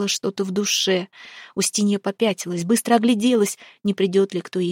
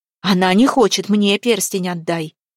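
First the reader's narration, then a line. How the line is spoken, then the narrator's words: Exclamation. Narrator (Russian): воскликнула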